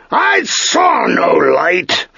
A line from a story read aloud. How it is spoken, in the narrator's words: the master roared